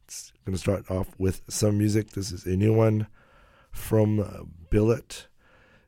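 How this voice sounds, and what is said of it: Weak, hoarse, partly lost voice. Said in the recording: “I don't know if you can tell, I lost my voice ... Just slowly getting it back ... this half a voice”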